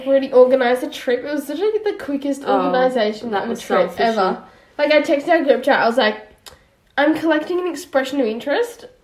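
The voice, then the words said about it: Sick, slightly weird-sounding voice. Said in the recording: “I'm sick, so that's probably why I sound a bit weird.”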